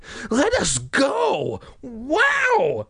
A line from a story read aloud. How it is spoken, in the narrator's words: Sari screamed at Ahmed